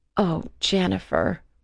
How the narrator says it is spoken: said sadly

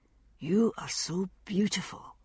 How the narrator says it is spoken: he said softly

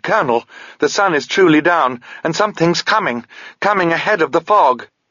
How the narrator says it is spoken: exclaimed

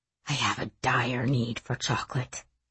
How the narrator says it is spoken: he whispered

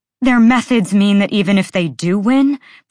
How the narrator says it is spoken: Bryce shouted

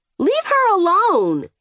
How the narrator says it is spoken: the kid cried

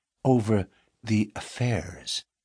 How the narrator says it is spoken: the miner lowered his voice

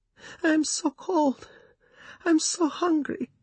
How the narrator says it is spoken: she wailed

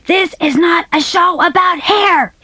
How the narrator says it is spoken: he screamed

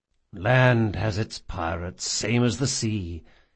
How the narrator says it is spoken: he murmured between kisses

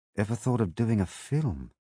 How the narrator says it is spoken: She murmured

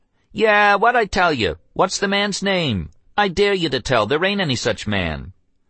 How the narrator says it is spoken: they both cried

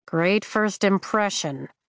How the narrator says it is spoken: I mutter

